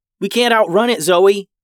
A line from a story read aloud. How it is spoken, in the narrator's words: Molly yelled